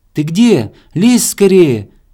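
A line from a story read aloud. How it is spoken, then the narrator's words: Squirrel shouting from darkness. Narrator (Russian): кричала белка из темноты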